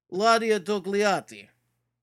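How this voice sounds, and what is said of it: Put-on Russian accent. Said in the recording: “Let me try it in Russian accent.”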